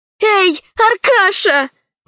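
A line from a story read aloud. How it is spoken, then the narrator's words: Exclamation. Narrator (Russian): воскликнула Алиса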